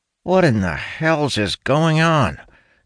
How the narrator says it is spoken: Talon grumbles in annoyance

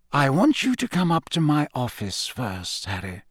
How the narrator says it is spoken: he said quietly

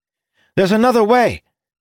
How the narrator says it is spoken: Ildin cried

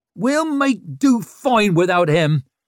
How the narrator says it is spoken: Ricker roared at the town in general

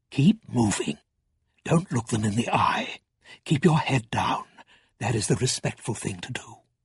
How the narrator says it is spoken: Balthamos whispered

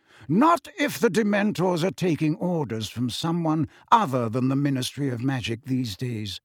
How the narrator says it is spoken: said Dumbledore calmly

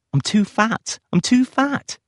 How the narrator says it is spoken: she cried

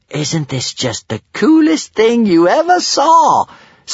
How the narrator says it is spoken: sang Kamikaze, excitedly

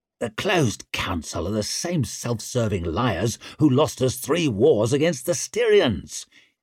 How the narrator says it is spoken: hissed Isha

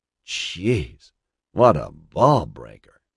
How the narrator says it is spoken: he muttered

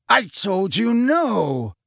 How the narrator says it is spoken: Lucius Malfoy roared at the woman

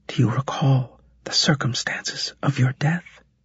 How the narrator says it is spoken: she asked quietly

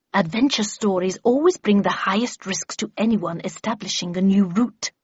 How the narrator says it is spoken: hissed back Miss Havisham

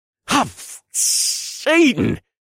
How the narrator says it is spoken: I gasped

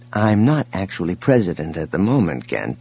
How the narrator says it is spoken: Leia interrupted him gently

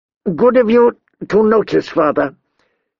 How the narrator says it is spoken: he said through clenched teeth

